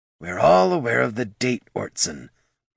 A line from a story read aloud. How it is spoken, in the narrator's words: muttered Goldson, glancing around uncomfortably